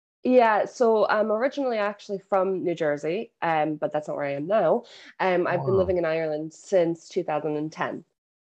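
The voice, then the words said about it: Irish-influenced American accent. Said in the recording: “I think I heard an accent ... So the accent really, yeah. It assimilates to you. It rubs off on you ... anybody else is like, you're not from Ireland”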